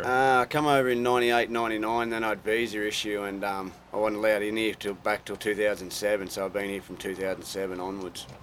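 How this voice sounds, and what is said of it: Australian accent. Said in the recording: “I love the Australian accent, and you're from New South Wales”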